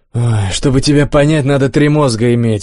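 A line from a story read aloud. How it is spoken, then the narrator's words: Sighing. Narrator (Russian): вздохнул Олег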